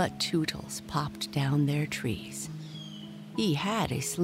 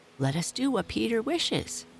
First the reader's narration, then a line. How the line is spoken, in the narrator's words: cried the simple boys